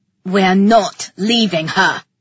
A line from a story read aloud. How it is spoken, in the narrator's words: growled the other boy